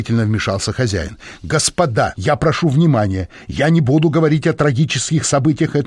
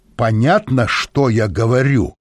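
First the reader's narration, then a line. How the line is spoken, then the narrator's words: Menacing question. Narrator (Russian): грозно спросила Брюн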